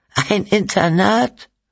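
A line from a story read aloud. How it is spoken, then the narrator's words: Bitter laugh. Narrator (German): Cynthia lachte verbittert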